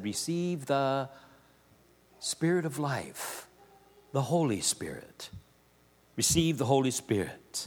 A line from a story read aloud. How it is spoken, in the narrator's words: He breathed on them and said